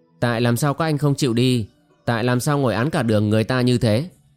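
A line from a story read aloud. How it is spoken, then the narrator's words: Loud voice. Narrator (Vietnamese): Vương Động lớn tiếng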